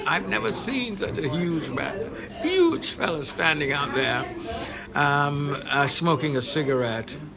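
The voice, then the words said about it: London English accent. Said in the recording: “You got an accent ... I'm from London ... Yes, London, England.”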